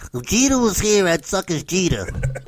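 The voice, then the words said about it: Impression of Mike Francesa. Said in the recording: “Do you like Mike Francesa? ... I have a good impression.”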